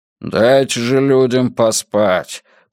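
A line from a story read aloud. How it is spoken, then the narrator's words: Grumbling mutter. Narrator (Russian): пробурчал Эриксон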